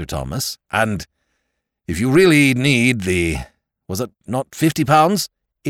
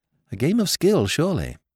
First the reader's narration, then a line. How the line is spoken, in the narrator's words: murmured Jimmy